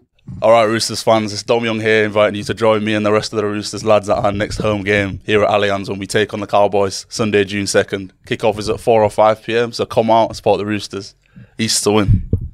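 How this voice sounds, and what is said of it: West Yorkshire northern English accent. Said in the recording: “a West Yorkshire man ... Northerners”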